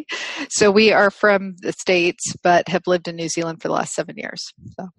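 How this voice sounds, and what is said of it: North American accent. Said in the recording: “as you can probably tell from my accent, North American originally”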